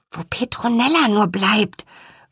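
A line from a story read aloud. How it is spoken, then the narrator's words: Soft whisper. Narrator (German): flüsterte er Lea leise zu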